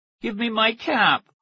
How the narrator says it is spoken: the little boy pleaded

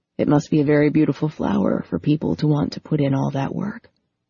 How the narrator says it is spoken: Patrick said softly

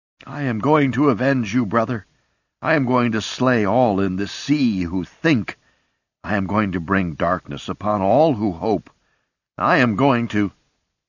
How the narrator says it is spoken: Water pulsed through his gill slits, and he cried out

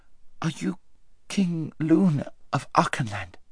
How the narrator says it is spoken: panted Shasta

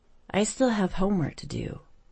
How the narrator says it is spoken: Mary Beth muttered

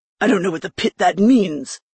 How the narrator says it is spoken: Dory growled

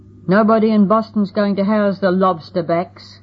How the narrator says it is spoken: cried the other man

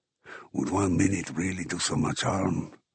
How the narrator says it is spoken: Ramos reminded me in a near whisper

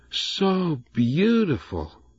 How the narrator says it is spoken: she sighed

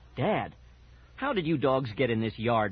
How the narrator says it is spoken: my father demanded sharply

